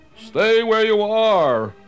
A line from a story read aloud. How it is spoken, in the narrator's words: called out